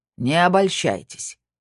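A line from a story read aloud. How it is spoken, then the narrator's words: Cold reply. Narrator (Russian): холодно ответил Снейдер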